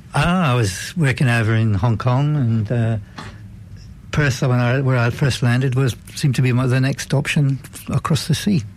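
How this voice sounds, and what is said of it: Slight Welsh accent. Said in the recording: “I detect a slight accent. ... I'm from Wales”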